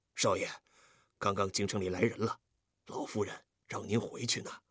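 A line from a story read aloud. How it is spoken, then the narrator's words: Hurried low voice. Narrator (Chinese): 福叔看见他回来了，赶紧上前低声说道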